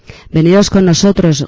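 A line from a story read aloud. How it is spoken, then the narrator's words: Shouting, avoiding eye contact. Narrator (Spanish): grita alguno de los informados, que no se atreven ni a mirarnos a los ojos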